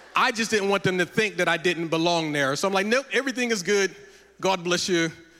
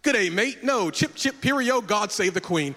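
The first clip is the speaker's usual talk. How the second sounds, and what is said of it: Put-on London accent. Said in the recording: “I started talking with a London accent”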